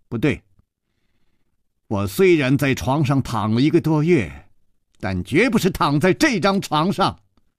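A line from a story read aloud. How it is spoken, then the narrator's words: Firm, loud young woman. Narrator (Chinese): 少女断然地 大声地说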